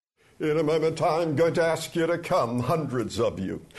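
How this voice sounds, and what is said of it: Imitates a famous evangelist preacher's voice. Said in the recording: “seriously impressive impersonation of Dr. Billy Graham”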